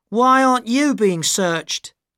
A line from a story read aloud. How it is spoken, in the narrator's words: Arabella shouted to me